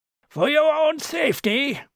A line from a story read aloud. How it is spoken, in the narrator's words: bellowed Quinn